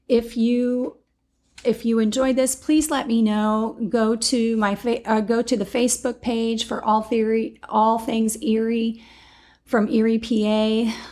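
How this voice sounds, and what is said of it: Sick, strained voice. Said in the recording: “apologize for my voice. I have been fighting some kind of like viral thing”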